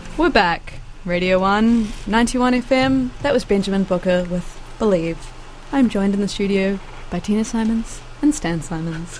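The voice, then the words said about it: Tranquil, soothing radio presenter voice. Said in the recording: “my actual radio voice ... Tranquil ... Soothing”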